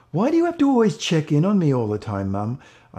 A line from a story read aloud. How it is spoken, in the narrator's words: cried out